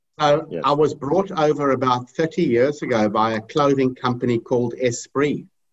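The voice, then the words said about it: Accent, not quite Australian. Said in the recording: “his accent sounds like yours, because I was wondering, your accent, it's not really Australian.”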